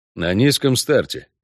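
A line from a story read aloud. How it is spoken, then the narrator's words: Grunted. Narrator (Russian): буркнул Геральт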